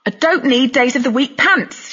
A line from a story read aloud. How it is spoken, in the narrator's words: she shouted